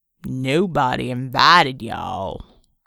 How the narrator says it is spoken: growled the Reb

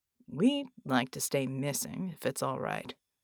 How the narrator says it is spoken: John said evenly

